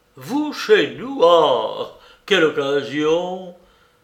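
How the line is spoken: Cheerful, slightly tipsy exclamation. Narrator (French): s'écria Ilia Pietrovitch, qui paraissait de très bonne humeur et même un peu lancé

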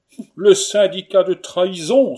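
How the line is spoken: Exclaimed. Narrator (French): s'écria M

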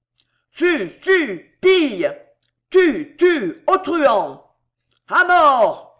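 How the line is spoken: Crowd yelling, cheering. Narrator (French): hurlait la foule en acclamant le duc de Guise

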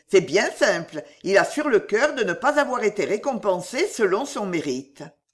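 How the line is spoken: Exclaimed. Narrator (French): s'écria Ruggieri

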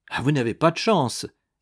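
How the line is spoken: Official's exclamation. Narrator (French): s'écria l'appariteur

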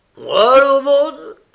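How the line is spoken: Exasperated man exclaiming. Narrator (French): s'écria l'homme exaspéré

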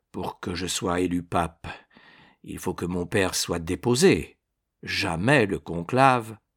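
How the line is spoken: Somber voice. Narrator (French): fit César d'une voix sombre

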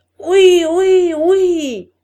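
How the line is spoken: Many voices yelling. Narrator (French): hurlèrent les voix

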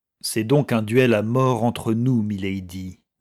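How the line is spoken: Solemn tone. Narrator (French): dit Robert d'un ton solennel

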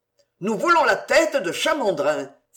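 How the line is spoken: Group shouting. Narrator (French): s'écrièrent les autres

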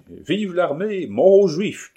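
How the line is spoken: Crowd shouting joyfully. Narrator (French): criaient les électeurs, ivres de joie, d'orgueil et d'amour

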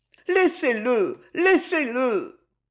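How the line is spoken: Child's pleading cry. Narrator (French): un cri, la supplication d'un enfant

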